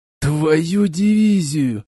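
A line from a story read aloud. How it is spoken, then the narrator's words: Groaning. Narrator (Russian): застонал разведчик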